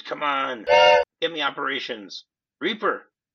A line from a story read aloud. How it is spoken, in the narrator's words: he screams